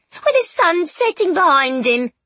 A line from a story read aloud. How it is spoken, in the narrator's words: the shrieking lady continued